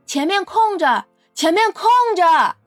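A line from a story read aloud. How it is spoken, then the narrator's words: Shouting. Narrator (Chinese): 车站人员正大喊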